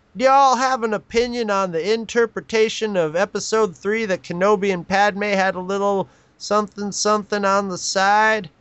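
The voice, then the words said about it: Put-on Southern accent. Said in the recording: “I'm going to do it in a southern accent.”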